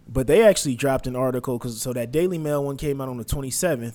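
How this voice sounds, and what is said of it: Sick, voice sounds different. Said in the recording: “I'm a little sick. ... my voice sounds a little bit different.”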